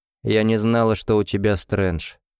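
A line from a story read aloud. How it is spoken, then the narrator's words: Cold reply. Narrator (Russian): холодно ответила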